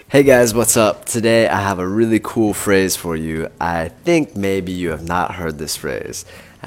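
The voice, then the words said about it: Sick, congested-sounding voice. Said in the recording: “my voice sounds terrible. I just got a cold, started last night”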